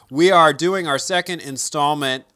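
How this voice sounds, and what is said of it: Game show announcer voice. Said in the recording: “see how I just slip into game show announcer voice like that?”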